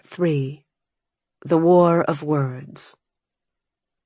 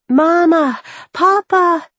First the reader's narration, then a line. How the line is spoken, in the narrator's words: the children cried